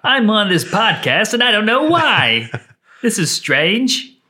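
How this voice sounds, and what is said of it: Imitates another person's voice. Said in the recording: “Was John Mulaney.”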